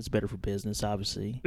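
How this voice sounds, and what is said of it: Put-on southern accent with twang. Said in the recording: “You don't sound like the other guys. ... I have a little bit of a southern. ... a little twang ... I tried to get rid of this accent.”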